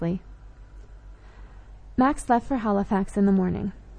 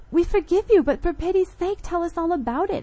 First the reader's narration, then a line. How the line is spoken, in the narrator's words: I cried